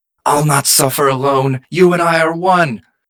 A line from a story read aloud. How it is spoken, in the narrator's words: The creature contorts its face into a mask of panic and pain before yelling